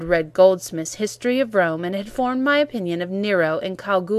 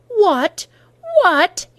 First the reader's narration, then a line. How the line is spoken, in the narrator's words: he cried